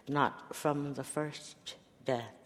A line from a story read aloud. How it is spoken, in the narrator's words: she says